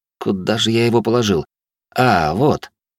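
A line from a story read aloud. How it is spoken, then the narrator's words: Pleased. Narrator (Russian): довольно произнес он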